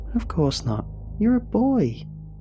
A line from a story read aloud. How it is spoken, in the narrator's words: exclaimed